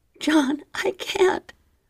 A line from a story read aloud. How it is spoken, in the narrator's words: I whimpered, but my liquid low voice broke